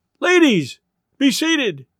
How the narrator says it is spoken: Thurkel might have cried, or been tempted to cry

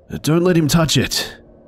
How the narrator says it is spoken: Grillo shouted at us from behind

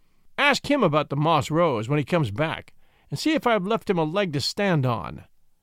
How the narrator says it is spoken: cried the great Cuff, hailing me through the window

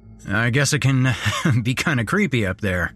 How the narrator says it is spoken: he chuckled, clearly embarrassed

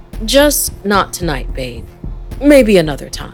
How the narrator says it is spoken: But then they warmed just as fast as it had happened, and Andy calmly said

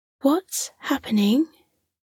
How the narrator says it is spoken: Millie asked

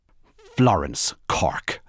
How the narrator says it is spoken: said the woman firmly

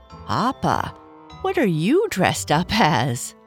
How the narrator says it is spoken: Bernice said with a laugh

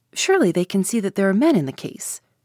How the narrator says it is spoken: I exclaimed

